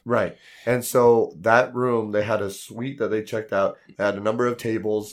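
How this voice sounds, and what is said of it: Hoarse, worn-out voice. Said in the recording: “my voice was completely shot from the convention and I'm still having remnants ... my voice is a little shot”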